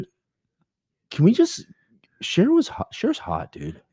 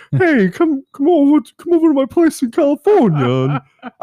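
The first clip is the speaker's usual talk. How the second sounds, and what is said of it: Imitates another person's voice. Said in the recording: “I can't do your voice, but I'm just gonna try.”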